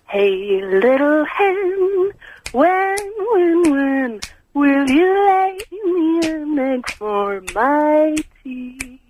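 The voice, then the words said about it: Sultry, sexy singing voice. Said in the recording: “What a delightfully sexy voice.”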